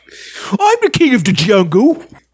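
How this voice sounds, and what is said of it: Attempted Cockney British accent. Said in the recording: “he has a really almost Cockney British accent ... I'm trying to do it. I can't ... Are you trying to sound like him?”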